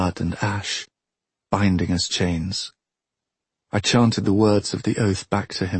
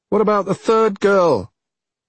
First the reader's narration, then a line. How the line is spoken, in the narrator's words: This shout from a small man